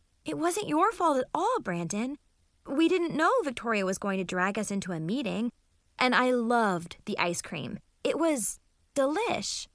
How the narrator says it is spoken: said cheerfully, trying to make him feel better

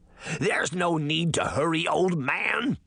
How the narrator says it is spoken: the frog girl screamed over the wind

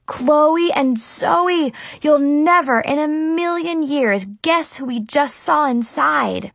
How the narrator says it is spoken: I exclaimed

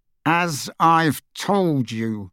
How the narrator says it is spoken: said through gritted teeth

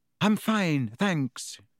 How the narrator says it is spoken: he said

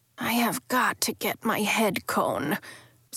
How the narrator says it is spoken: Sebastian muttered

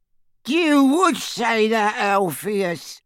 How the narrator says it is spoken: cackled Auntie Muriel

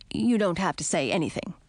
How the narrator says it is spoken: said stiffly

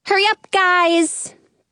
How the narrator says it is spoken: Penny yells

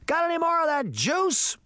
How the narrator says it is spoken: he shouted

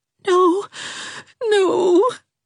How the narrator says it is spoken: whimpered Dovey

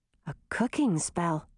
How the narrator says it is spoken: murmured

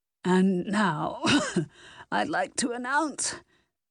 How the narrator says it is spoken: Regis Banks let out a strangled cough, then continued in a raspy voice

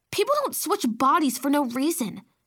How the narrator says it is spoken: Baby Sophie snapped

